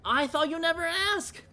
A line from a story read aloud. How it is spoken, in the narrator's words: Cooney said, happily